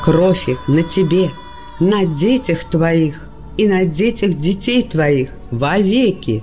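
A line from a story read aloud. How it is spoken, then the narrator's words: Booming lone voice. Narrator (Russian): прогремел в толпе чей-то одинокий голос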